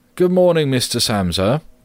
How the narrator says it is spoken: the manager called out in a friendly way

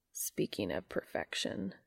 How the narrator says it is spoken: he muttered

